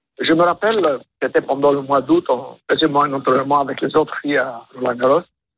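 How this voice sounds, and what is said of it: Light accent. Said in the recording (French): “Il y a un léger accent”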